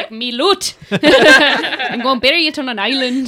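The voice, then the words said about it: Put-on Irish pirate accent. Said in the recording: “I don't even know what accent that was. That was like an Irish pirate.”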